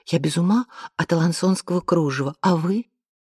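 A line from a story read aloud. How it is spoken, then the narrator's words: Quiet remark. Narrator (Russian): одна девица тихонько сообщила другой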